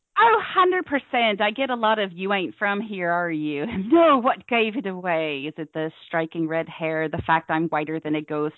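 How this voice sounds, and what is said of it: Cornish English accent. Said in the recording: “your wonderful accent ... what is that accent? ... Oh, originally from Cornwall ... the Cornish accent”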